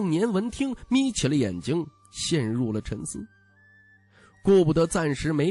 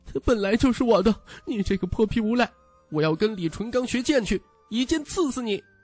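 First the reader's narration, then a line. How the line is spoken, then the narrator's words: Angry crying. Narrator (Chinese): 江泥愤恨地哭泣道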